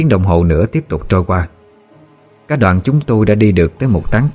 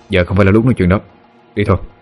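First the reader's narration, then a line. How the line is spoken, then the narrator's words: Cold dismissal. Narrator (Vietnamese): lạnh lùng gạt đi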